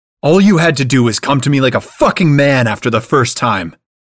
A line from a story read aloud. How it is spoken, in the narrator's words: he shouts